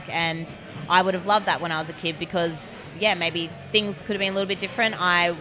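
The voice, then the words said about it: Australian accent. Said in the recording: “as people will tell from your accent, you are from Australia”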